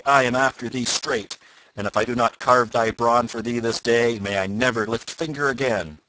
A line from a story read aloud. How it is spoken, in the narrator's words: roared he